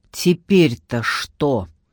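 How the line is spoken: Angry question. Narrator (Russian): сердито спросила Вера

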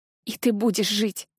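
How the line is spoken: Strained, forced out. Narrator (Russian): выдавила

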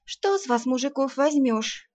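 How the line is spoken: Sigh. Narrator (Russian): вздохнула Арсана

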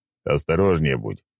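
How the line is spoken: Sharp warning shout. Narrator (Russian): прикрикнул на нее

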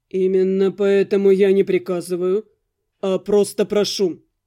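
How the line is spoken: Calm, respectful reply. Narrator (Russian): Спокойно, даже почтительно откликнулся Виконт

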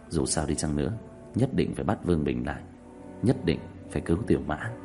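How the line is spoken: Sighing, continuing. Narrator (Vietnamese): thở dài nói tiếp

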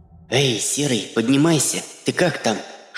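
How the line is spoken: Whisper. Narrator (Russian): шепнула она ему

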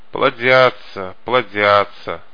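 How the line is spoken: Sighed. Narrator (Russian): вздохнул Пиноккио

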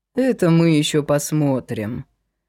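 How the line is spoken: Gloomy reply. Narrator (Russian): мрачно откликнулся

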